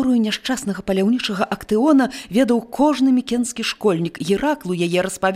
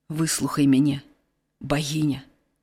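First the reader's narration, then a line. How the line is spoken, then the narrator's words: Quiet speech. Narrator (Belarusian): ціха загаварыў ён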